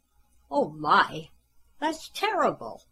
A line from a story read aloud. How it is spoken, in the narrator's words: Jane exclaimed when she heard what had happened to Santa